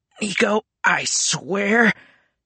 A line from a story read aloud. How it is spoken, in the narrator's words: he groaned